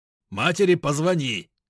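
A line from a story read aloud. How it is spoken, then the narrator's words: Shouting while running away. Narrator (Russian): крикнул, убегая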